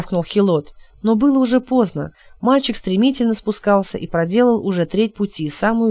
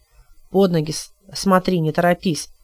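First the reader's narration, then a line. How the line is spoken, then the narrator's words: Gruff mutter. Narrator (Russian): буркнул он Тему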